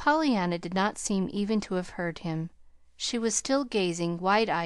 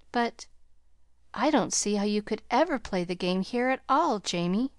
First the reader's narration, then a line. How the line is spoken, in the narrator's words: she faltered